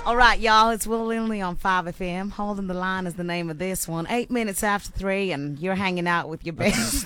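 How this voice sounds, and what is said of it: Put-on American accent. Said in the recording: “That's the wrong American accent. ... you're coming back y'all from America. ... You're from the wrong state. ... There's a four-hour flight from where that accent is from.”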